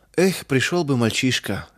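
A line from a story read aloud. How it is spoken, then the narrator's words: Sigh. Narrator (Russian): вздохнул мельник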